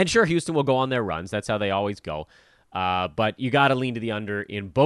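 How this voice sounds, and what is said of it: Usual voice. Nothing is said of it.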